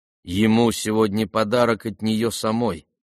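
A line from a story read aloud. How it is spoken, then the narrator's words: Plain. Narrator (Russian): сказала Варя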